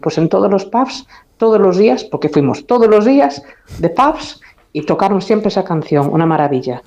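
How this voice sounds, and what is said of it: Galician accent in Spanish. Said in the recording (Spanish): “con ese precioso acento gallego”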